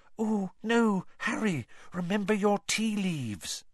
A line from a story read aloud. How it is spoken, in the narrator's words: both Lavender and Parvati whispered